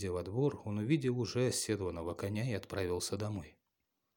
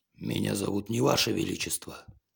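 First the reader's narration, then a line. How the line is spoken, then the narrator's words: Monster's growl. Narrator (Russian): зарычал монстр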